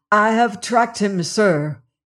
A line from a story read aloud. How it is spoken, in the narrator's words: cried